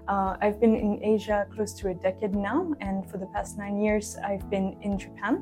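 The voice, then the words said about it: French accent. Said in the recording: “As you can probably tell from my accent, I'm initially from France.”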